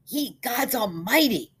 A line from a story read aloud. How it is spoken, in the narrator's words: bellowed Simpson